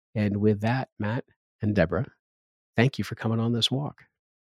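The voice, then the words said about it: Smooth late-night DJ voice. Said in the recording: “You've got that late night DJ voice.”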